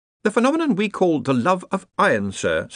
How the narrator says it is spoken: said Ponder smoothly

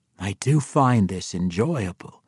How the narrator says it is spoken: whispered in his ear

